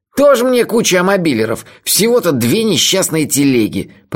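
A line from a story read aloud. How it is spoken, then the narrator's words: Grumbling. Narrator (Russian): проворчал Мелифара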